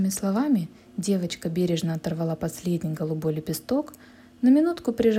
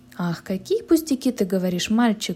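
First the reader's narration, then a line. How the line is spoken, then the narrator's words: Exclamation. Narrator (Russian): воскликнула Женя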